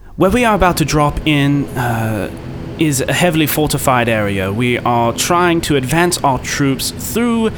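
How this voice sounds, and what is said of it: Put-on British accent. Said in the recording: “Now I have to do a British accent ... I'll do a British dude's voice.”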